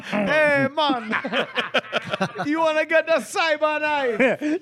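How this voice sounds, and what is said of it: Put-on Jamaican accent. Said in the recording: “a little bit of an accent ... Jamaican”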